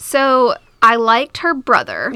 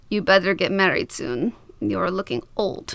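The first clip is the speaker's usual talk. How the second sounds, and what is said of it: Put-on Russian-sounding accent. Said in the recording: “I love how he's Russian now, by the way. ... I can't do a Greek accent, so every time I do it, it's going to be something different.”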